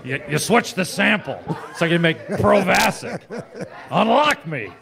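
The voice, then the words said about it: Imitates another person's voice. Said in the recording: “I like to do my impersonation ... Harrison Ford ... That's actually really good.”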